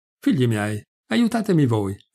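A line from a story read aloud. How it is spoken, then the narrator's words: Magician exclaiming. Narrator (Italian): esclamava il mago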